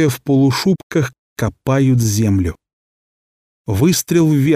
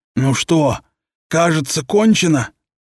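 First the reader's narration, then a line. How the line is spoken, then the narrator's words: Hoarse. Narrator (Russian): хрипло сказал один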